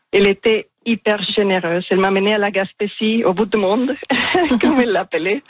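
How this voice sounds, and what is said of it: Strong accent speaking French. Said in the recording (French): “j'ai un accent assez marqué ... Il est magnifique, cet accent”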